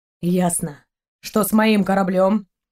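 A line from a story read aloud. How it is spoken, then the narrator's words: Gloomy question. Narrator (Russian): мрачно поинтересовался Далок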